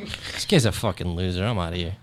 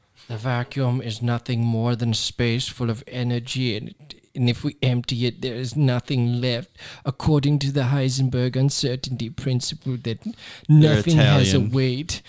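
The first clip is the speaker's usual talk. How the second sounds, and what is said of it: Mock Italian-accented speaker. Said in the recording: “I don't care what an Italian accent sounds like. This is how this man sounds.”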